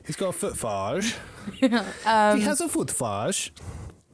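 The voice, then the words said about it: Silly put-on accent. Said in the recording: “I'm allowed to do silly accents ... your silly accents sound very similar to when you do my accent”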